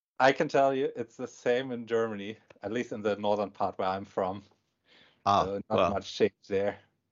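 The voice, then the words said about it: Foreign accent, German. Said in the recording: “you got an accent, man. You're not from around here.”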